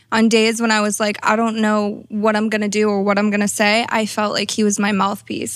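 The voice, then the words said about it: Slight Massachusetts accent. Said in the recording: “I'm originally from a small town in Massachusetts. You could probably hear my accent, right? ... A little bit, ... maybe the Valley girl took over a bit.”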